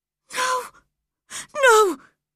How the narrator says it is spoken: he cried, getting quite excited

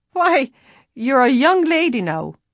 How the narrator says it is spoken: he laughed

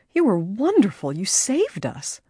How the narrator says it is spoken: she exclaimed

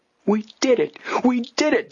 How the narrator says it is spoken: Joe cried out jubilantly

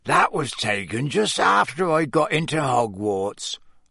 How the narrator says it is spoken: Hagrid croaked

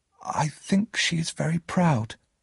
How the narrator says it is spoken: I said quietly

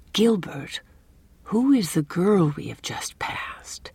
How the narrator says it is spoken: asked Anne in a low voice

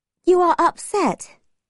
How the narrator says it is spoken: Margaret said sadly

